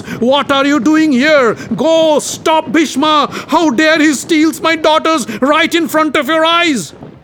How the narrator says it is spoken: The Kashi king shouted at the guests

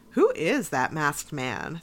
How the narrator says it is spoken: said Meredith

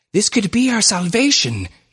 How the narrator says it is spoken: gasped Dr

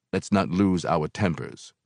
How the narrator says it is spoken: Brother Jack said calmly

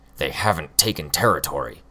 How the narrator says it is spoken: Hookwolf snapped back

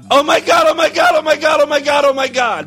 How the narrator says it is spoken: Blanche screamed with ecstasy

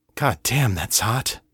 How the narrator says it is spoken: Kate panted

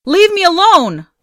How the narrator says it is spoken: yelled

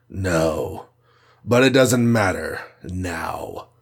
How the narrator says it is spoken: snarled Kars

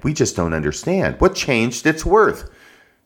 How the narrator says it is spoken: some of them cried

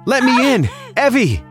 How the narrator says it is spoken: She wouldn't stop screaming

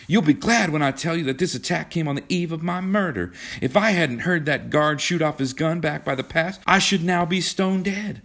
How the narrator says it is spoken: begged John

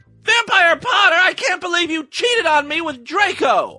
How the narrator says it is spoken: I shouted at him

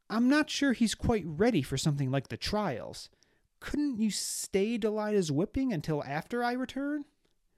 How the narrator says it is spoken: in a slightly louder, pleading tone, said

